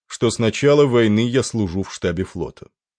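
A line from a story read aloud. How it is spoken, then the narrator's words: Even, level voice. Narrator (Russian): ровным голосом произнес Стар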